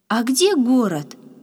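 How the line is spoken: Joyful, curious question. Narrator (Russian): радостно сверкнув глазами, заинтересовался Яша

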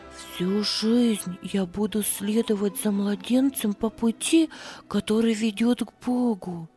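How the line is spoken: Whisper. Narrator (Russian): шептала она

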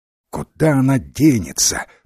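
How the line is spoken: Grumbling. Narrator (Russian): проворчала Фея

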